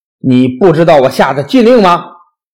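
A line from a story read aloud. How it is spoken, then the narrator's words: Calm, fearless. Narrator (Chinese): 苏从面无惧色，从容不迫地说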